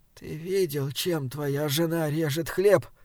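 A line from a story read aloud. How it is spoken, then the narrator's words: Barely audible question. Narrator (Russian): спросила она едва слышно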